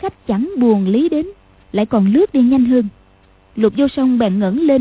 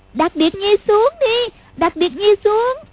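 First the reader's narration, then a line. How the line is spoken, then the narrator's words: Frightened hurried cry. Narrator (Vietnamese): Lục Vô Song cảm thấy sợ quá, vội kêu lên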